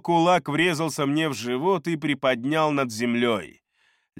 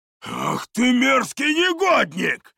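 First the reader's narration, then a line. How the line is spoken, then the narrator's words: Roared. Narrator (Russian): взревел он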